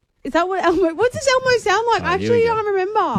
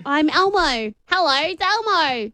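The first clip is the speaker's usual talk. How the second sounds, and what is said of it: Elmo voice in American accent. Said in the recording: “I went with an American accent. ... I'm speaking in an American accent.”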